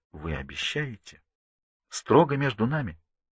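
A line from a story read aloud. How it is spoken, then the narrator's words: Quiet question. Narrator (Russian): Тихо спрашивает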